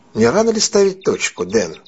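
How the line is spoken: Calm question. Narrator (Russian): спокойно спросил Мэтью

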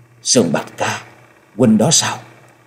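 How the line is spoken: Trembling, joyful, choked up. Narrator (Vietnamese): Giọng nói hơi run run, thể hiện rõ sự trông chờ và mừng vui, không giấu được nỗi xúc động đến nghẹn ngào

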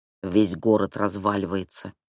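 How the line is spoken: Muttering. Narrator (Russian): пробормотал

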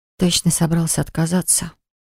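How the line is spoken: Breathed out. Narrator (Russian): выдохнула я

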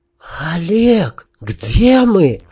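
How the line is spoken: Escaped whisper. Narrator (Russian): шепотом вырвалось у Танюшки

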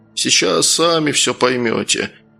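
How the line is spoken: Tired, smiling. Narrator (Russian): устало улыбнулся Гаврилий

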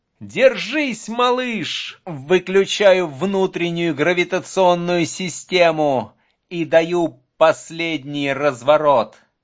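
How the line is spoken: Shouted. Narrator (Russian): Командир крикнул

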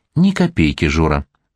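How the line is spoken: Soft. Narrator (Russian): мягко сказал дядя Сандро

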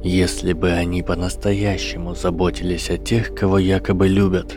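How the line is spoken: Quiet voice. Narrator (Russian): тихо сказал профессор защиты

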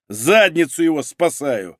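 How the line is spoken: Loud bark. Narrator (Russian): гаркнул Малинин

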